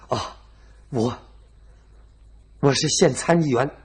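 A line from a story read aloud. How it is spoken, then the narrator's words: Panting, breathless. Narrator (Chinese): 这犯人喘着大口大口的气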